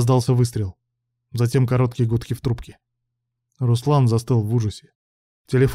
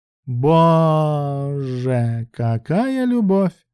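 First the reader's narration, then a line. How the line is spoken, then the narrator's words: Drawling. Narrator (Russian): протянула Брук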